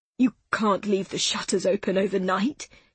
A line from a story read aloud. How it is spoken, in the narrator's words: he spluttered, his suspicions about her laissez-faire attitude clearly solidifying